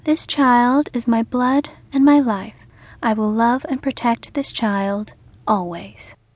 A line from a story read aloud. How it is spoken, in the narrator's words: said in her sweet, firm voice